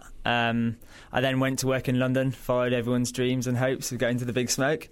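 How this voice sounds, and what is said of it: Yorkshire English accent. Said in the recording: “As you can probably tell from the accent, I'm not from Australia ... Originally from Yorkshire in England”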